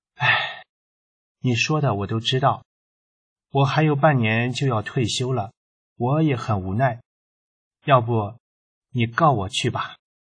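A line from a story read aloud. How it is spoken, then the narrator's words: Sighing, resigned. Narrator (Chinese): 并未生气，最后叹了口气说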